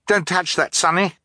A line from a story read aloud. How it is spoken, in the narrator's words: Violet cried